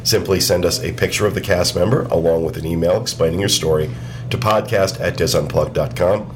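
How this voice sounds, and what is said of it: Losing voice, short of breath. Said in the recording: “losing my voice ... all of a sudden? ... You're also running out of breath.”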